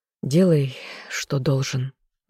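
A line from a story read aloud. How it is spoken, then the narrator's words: Sigh. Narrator (Russian): вздохнул он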